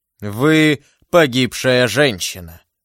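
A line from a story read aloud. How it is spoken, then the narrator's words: Thunderous voice. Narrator (Russian): сказал он громовым голосом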